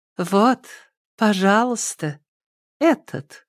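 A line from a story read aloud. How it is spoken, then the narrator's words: Melodic high female voice. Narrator (Russian): проговорила она мелодичным высоким голосом, напоминающим журчание ручья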